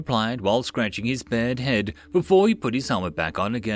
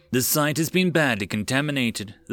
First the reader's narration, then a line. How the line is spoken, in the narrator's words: the sergeant sighed